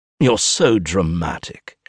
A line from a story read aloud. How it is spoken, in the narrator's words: he scoffs